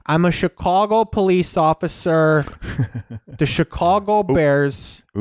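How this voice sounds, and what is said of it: Exaggerated meathead Chicago accent. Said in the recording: “when people do the Chicago accent, they do Chicago. Chicago. That's the like meathead Chicago”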